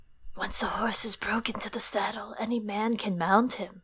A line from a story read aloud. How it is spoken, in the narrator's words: he said in a soft voice